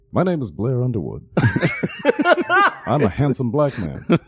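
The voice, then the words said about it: Imitates another person's voice. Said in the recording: “my Blair Underwood impression ... Pretty good.”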